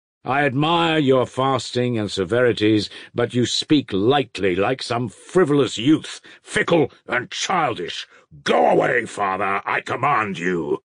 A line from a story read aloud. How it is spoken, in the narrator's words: Father Pacey thundered in conclusion